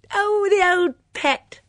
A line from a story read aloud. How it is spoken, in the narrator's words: she exclaimed